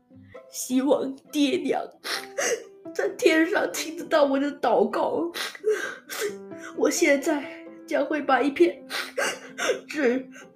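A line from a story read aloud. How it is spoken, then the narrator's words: Crying. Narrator (Chinese): 刘邦哭了出来，他说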